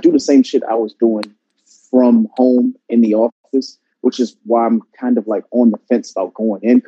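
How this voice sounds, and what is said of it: Tired, slower than usual speech. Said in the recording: “I'm so tired. I don't even have my normal cadence. I'm usually talking like a mile a minute.”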